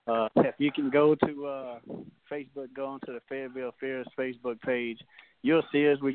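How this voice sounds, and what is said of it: Mississippi Southern US accent. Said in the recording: “I got that Mississippi accent. You may not be able to understand”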